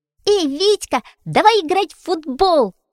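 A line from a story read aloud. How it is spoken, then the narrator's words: Shouting. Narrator (Russian): закричал Фитюлька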